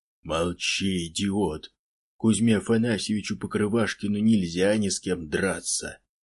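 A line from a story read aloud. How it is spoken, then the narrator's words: Inarticulate growl. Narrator (Russian): Первый нечленораздельно зарычал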